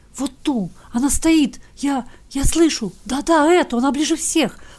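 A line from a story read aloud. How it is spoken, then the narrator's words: Soundless whisper. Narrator (Russian): прошептал он, или, вернее, беззвучно пошевелил языком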